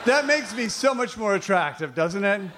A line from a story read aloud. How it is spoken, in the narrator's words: They laugh nervously